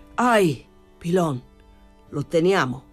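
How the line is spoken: Shouted. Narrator (Italian): Egli gridò

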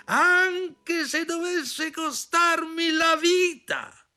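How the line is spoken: Shouted. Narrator (Italian): gridò

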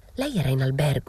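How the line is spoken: Whisper. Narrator (Italian): bisbigliò

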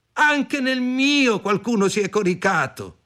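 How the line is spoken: Several voices shouting. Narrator (Italian): Gli altri gridarono

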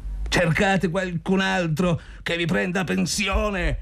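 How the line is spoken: Shouted. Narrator (Italian): gridò Zotov

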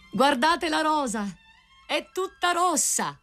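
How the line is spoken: Rosebush crying out. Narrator (Italian): il grido del rosaio

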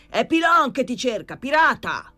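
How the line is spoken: Shouting again. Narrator (Italian): tornò a gridare Pilon

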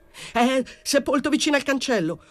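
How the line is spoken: Yelled. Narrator (Italian): urlò

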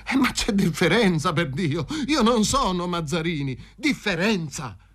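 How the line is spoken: Exclaiming. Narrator (Italian): esclamò il Fazio

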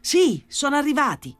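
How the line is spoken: Shouted. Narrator (Italian): gridò Gesù Maria

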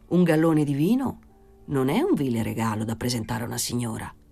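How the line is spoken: Thoughtful suggesting tone. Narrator (Italian): suggerì in tono pensoso

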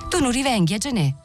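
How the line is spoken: Small voice shouting. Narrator (Italian): gli gridò con la sua vocetta Mariuccio

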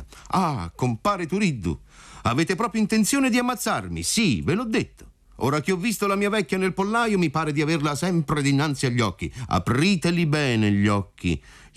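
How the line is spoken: Shouting. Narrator (Italian): gli gridò compar Alfio

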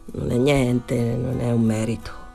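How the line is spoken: Embarrassed murmur. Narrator (Italian): Danny rimase imbarazzato, mormorò

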